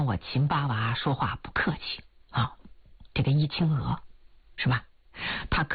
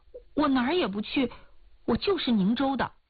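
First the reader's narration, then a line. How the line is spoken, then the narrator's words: Hurried. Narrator (Chinese): 易青娥急忙说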